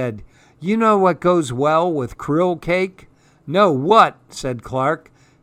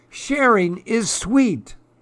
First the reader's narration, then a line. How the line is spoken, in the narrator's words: cried Clark the Shark